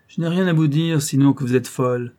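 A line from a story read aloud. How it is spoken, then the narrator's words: Curt, hard reply. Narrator (French): répondit Lady Audley d'un ton sec et dur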